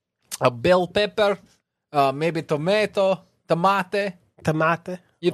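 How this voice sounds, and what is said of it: Put-on general Mediterranean accent. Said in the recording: “What accent is this? This is my general Mediterranean accent... general Mediterranean... From all the way from Mediterranean.”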